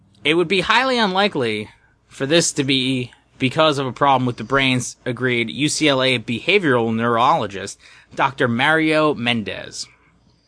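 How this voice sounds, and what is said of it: New Jersey accent slipping out. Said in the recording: “Oh, that New Jersey accent coming out. ... I said your New Jersey accent.”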